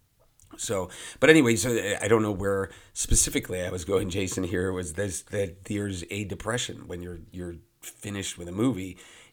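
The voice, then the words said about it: Hoarse, worn-out voice. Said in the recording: “my voice sounds a little hoarse ... losing my voice”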